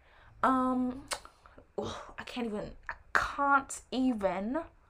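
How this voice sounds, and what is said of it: Put-on British accent. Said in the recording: “I do a British accent.”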